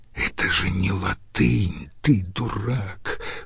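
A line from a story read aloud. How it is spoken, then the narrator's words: Smirking whisper. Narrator (Russian): шепнул, ухмыльнувшись, Домициан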